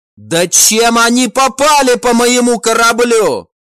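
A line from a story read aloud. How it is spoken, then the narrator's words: Captain shouting. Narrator (Russian): прокричал капитан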